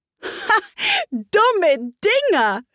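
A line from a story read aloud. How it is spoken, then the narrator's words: Loud indignant speech. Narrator (German): fing Alice entrüstet ganz laut an zu sprechen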